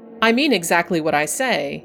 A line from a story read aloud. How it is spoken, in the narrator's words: he said